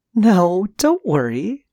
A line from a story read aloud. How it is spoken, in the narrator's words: said between giggles